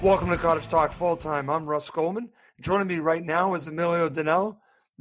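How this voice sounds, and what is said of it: Slightly hoarse voice. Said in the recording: “As you can hear, I'm a little bit hoarse ... hope you try to rest your voice”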